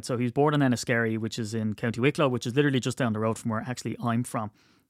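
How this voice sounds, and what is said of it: Irish accent. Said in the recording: “my accent ... proud Irishman, proud Wicklow man”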